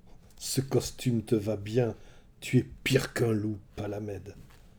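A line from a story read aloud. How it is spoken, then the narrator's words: Hissed through teeth. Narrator (French): siffla Ulysse entre ses dents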